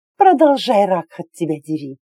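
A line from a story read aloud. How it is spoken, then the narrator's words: Breathless, into long moan. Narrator (Russian): выдохнула я, тут же перейдя в протяжный стон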